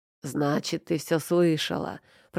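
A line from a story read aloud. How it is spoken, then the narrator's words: Groaning. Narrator (Russian): простонал он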